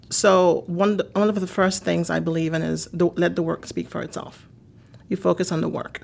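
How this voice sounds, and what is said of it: Haitian accent. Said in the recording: “a woman from Haiti, a woman who speaks with an accent”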